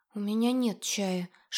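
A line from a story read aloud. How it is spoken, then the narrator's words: Frightened whisper. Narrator (Russian): шепнула, обмирая под сканирующим взглядом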